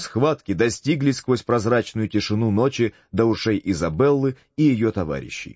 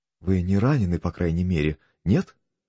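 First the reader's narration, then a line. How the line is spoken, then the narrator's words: Meek voice. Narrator (Russian): спросила она кротким голосом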